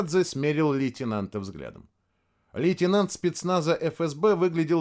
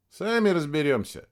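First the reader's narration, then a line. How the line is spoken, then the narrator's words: Snorting. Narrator (Russian): хмыкнул Точилин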